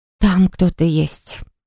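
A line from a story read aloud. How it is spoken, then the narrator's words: Relieved exhale. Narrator (Russian): выдохнула облегченно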